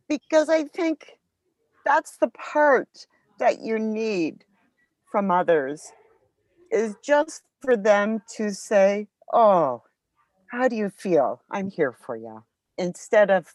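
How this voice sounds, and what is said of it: Emotional, choked-up voice. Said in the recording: “I'm getting emotional talking about that”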